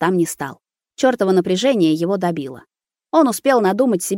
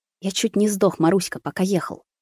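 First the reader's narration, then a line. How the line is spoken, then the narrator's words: Muttered. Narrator (Russian): пробормотал Рус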